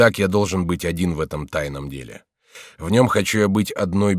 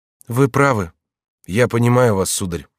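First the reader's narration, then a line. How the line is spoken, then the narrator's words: Sad. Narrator (Russian): сказал верный конюший, печально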